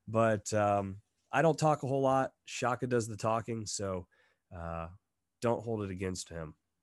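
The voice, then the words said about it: Slightly off, congested voice. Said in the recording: “I'm coming over a little bit of a head cold, so my voice is a little off”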